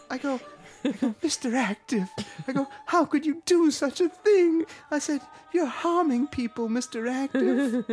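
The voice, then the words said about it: Old-fashioned prairie-style voice. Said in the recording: “You sound like a little house on the prairie.”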